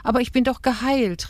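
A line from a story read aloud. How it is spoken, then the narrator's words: Called out. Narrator (German): rief Rahel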